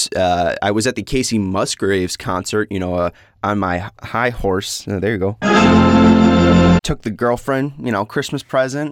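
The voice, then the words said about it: Slightly hoarse voice. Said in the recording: “my voice sounds a little bit hoarse.”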